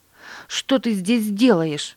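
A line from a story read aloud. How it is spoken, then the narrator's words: Angry cry. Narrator (Russian): сердито вскрикнула она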